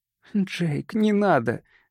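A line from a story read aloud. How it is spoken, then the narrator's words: Pleading. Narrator (Russian): взмолилась Ронда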